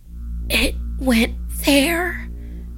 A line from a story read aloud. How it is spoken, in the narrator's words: she whispered